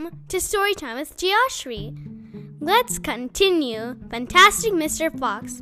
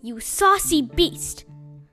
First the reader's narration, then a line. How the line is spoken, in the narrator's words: said Mr